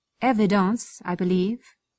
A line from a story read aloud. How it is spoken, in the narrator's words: said